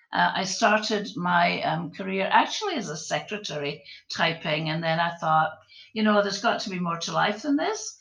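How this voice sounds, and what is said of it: Scottish accent. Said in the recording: “my Scottish accent, because you'll pick it up pretty quickly”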